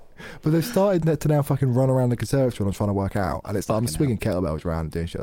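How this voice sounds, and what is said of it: Usual voice. Nothing is said of it.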